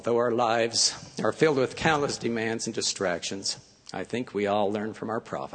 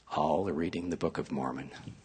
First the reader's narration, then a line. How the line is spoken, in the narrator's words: She whispered